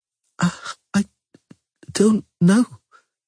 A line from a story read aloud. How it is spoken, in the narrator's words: she stammered